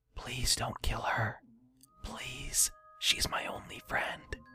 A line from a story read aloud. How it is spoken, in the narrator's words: quietly whispered to no one